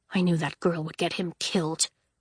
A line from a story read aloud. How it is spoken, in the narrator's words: Legend muttered